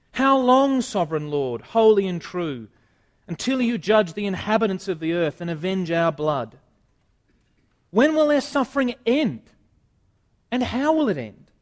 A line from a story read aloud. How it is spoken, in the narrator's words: They called out in a loud voice